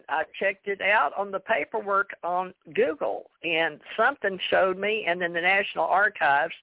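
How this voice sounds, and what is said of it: Country-sounding accent. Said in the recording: “why do I sound so country? ... Do I sound really...”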